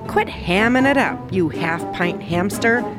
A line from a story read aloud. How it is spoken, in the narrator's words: snarled Big Bark